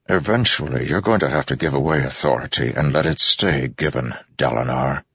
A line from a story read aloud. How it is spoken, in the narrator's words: Amaram said softly